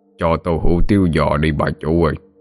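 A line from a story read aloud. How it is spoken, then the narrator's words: Gruff male voice. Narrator (Vietnamese): Người đàn ông cất giọng ồm ồm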